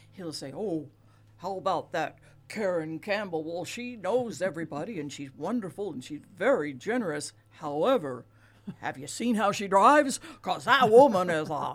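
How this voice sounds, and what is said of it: Poorly done Santa Claus voice. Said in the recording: “worst Santa Claus imitation”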